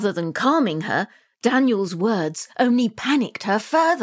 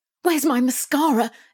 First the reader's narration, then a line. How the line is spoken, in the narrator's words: Emily cried as she rushed around